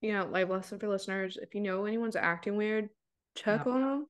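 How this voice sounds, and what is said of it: Usual voice. Nothing is said of it.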